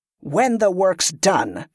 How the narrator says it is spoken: she growled

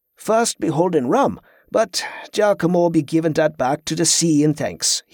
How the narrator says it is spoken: he added with a sigh

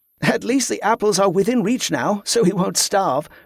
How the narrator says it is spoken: Jordan added

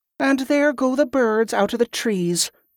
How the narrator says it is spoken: the girl sighed

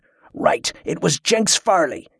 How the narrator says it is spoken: he shouted

